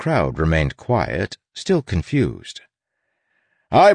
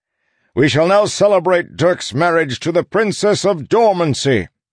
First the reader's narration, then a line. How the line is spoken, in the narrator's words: the Duke shouted